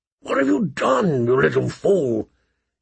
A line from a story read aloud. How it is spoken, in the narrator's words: asked hoarsely